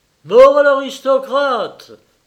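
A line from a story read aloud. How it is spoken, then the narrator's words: Frenzied crowd crying out. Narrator (French): s'écria le peuple en délire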